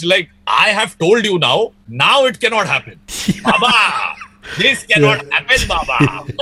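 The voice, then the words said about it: Imitates another person's voice. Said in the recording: “great Sidke impersonation”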